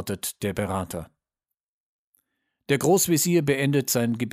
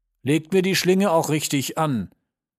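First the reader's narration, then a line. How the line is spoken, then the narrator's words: Condemned man's last words. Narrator (German): sind laut Zeremonienmeister seine letzten Worte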